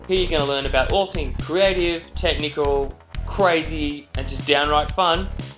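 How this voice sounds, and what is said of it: Australian accent. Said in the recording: “As you can probably tell by my accent, I'm not a New Yorker, I am an Aussie.”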